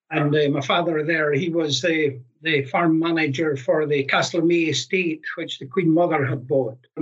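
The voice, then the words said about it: Scottish accent. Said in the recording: “You've probably picked up from my accent. I'm not local to Edinburgh. I was born and brought up in the far north of Scotland in Caithness.”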